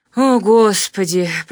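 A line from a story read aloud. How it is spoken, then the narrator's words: Groaning in anguish. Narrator (Russian): простонал Ковалев, с болью душевной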